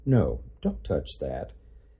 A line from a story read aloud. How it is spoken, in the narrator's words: in a calm voice say